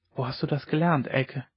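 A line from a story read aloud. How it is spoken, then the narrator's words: Whisper across the table. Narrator (German): flüsterte er über den Tisch hinüber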